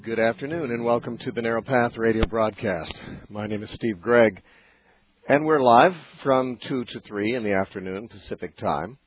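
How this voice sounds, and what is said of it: Deeper voice from a cold. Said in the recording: “My voice might sound a little different than usual. I've had a cold ... my voice has been affected quite noticeably to me ... It's deeper and more masculine”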